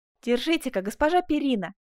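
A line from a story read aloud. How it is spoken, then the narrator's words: Exclamation. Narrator (Russian): воскликнул Асканио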